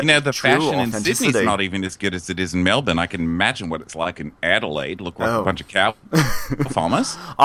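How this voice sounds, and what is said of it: Put-on Melbourne housewife accent. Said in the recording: “Real Housewives of Melbourne? ... So my accent's going to be even better than usual ... Oh, it sounds good. Sounds good.”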